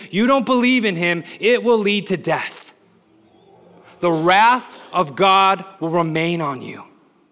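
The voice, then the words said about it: Yelling, loud preaching. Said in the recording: “that's why I'm yelling it”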